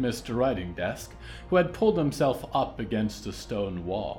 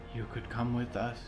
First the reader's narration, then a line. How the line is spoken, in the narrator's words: said Penny dreamily